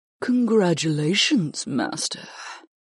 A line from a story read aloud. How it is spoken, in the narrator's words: Huna praised me in a deeply sensual tone